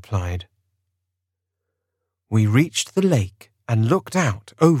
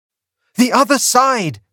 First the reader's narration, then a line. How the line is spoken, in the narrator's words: I cried